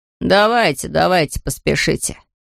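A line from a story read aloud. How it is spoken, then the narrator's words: Mocking. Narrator (Russian): продолжил насмешливо Лабан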